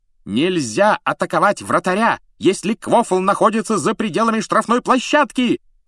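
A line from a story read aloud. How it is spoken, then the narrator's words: Shrill yell. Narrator (Russian): пронзительно завопила она, обращаясь к Дереку и Боулу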